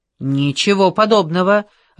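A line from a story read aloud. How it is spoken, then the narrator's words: Barked. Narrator (Russian): рявкнул Злин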